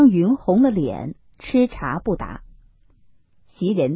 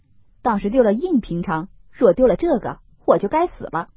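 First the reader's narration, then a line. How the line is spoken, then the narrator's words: Laughing. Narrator (Chinese): 宝玉笑道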